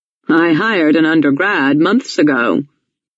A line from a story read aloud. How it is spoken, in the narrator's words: Tom Lawson said